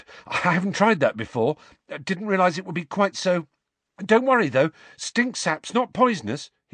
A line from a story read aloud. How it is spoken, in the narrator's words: he added nervously